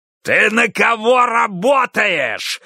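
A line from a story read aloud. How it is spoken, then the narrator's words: Roar. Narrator (Russian): взревел он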